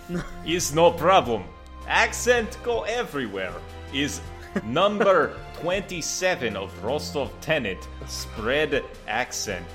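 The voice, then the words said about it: Put-on foreign accent, broken English. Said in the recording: “Accent is infectious.”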